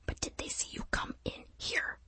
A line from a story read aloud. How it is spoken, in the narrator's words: he whispered